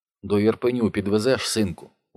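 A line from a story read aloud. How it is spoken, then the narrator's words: Tired, ingratiating question. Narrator (Russian): устало и чуть заискивающе спрашивает женщина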